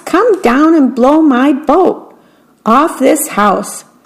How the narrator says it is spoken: shouted the mouse

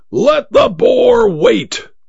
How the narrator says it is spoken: roared

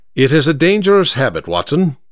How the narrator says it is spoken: said

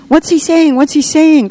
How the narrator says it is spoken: cried the children, almost in unison

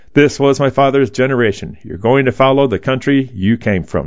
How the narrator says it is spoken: he says

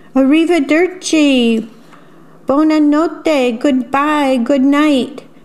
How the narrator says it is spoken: Strega Nona and her two helpers called out

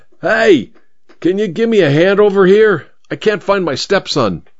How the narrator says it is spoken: yelled at the traffic cop

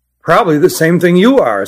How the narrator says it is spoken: said Nathan

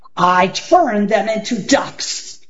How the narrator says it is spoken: bellowed Gasazi

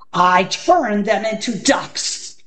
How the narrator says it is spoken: bellowed Gasazi

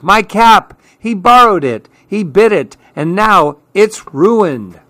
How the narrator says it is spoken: cried Clark

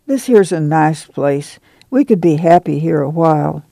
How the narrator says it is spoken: Ma said sadly

